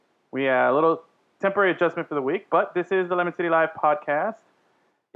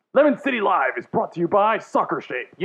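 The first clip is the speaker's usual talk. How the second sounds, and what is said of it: Announcer-style radio voice. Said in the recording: “put on my radio voice”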